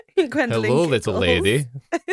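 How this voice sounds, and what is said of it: Put-on Scottish accent. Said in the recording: “It's the accent. It's all about the accent... It's the Scottish accent.”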